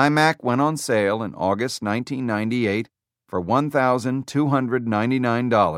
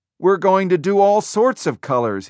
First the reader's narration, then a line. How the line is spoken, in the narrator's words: he told them excitedly